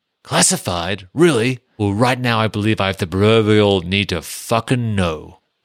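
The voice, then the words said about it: Quotes a line in a put-on accent. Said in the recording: “They're made better by you doing the accent ... The voice”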